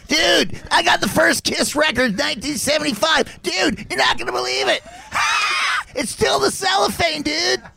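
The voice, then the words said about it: Imitates another person's voice. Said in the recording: “I'll do a Sebastian.”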